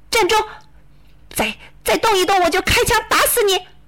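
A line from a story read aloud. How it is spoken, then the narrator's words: Loud shout. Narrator (Chinese): 我大喊一声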